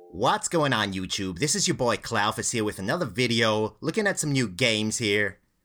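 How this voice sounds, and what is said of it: Imitates a typical YouTube gamer voice. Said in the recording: “Pretty good impression, eh, mate? That's every fucking dead shit YouTube gaming channel ever.”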